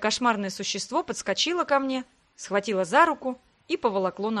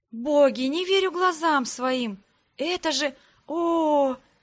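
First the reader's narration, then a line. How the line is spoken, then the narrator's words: Ecstatic moan. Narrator (Russian): застонала от восторга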